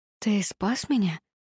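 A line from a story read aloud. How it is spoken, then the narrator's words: Whisper. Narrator (Russian): прошептала я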